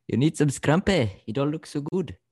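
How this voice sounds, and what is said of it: Attempted Scottish accent, sounds South African. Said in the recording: “I'm not good at it, but if there's one sentence I can say ... that just sounded South African. ... You full on went from Scottish to South African”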